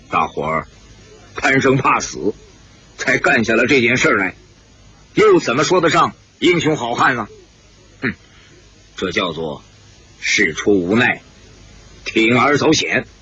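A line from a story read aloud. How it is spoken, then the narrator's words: Cold. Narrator (Chinese): 姓齐的冷冷地说道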